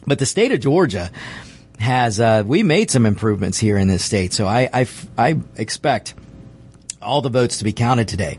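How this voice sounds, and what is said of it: Hoarse, failing voice. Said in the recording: “I'm losing my voice, apparently... Sometimes the voice just goes”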